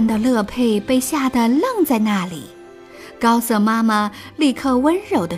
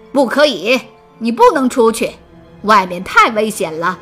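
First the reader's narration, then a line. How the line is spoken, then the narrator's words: Mother shouting loudly. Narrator (Chinese): 高瑟妈妈便大吼道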